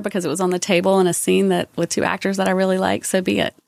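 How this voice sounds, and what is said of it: Southern American accent. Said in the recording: “my Southern accent is coming through... It will, definitely.”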